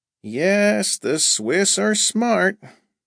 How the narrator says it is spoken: Thurston sighed

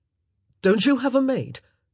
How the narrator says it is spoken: Colin suddenly blurted out

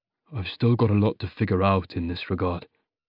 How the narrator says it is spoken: he murmured

